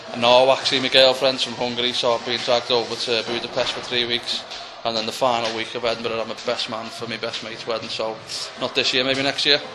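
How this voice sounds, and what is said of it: Scouse accent. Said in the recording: “I don't speak proper English anyway with the Scouse accent”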